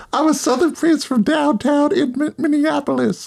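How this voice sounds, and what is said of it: Imitation with a Southern accent. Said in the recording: “I can't do a Prince voice. ... I guess it's a Southern Prince. ... A Southern Prince, right.”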